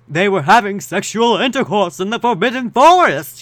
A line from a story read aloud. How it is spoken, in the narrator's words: he yelled in a furious voice